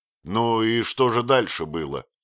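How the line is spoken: Plain question. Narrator (Russian): спросил Отто

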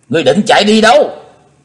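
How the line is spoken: Loud shout. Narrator (Vietnamese): Chí Tôn hét to

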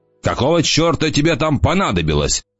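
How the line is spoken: Growl. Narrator (Russian): прорычал он

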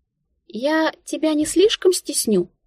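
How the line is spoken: Uncertain question. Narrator (Russian): неуверенно поинтересовалась Тинка

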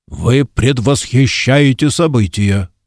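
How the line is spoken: Growled. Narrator (Russian): прорычал Ильдефонс

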